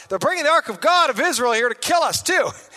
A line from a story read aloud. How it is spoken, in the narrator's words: the people of Ekron saw it coming, they cried out